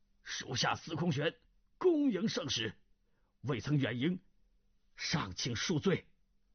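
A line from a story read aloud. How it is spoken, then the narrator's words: Loud. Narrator (Chinese): 司空玄已飞奔而至，大声说道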